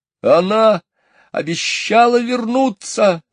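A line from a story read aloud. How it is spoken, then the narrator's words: Shout. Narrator (Russian): закричал он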